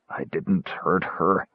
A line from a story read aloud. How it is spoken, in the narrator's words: mumble